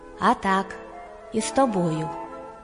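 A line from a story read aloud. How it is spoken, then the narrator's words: Calm. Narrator (Ukrainian): А їжак спокійно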